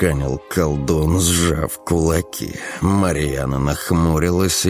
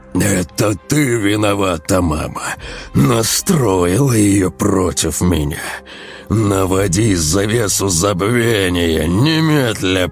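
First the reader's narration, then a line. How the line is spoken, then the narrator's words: Hissing. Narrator (Russian): прошипел колдун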